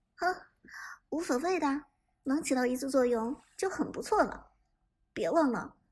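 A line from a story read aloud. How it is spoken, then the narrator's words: Cheerful, laughing. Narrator (Chinese): 杜鹃倒是很乐观，笑着说道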